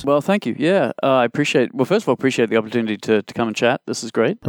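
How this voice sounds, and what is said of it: Australian accent. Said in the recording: “despite my funny accent ... So this is not an affectation ... I was born in Australia, but I've lived in Canada over half my life”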